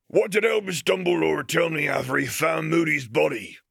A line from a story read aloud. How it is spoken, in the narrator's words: The deep, booming voice was obviously British, but it was one that bespoke a humble upbringing